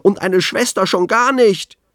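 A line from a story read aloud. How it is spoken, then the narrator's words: Shouting. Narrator (German): schrie Anton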